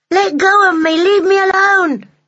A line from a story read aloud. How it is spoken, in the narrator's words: he kept shouting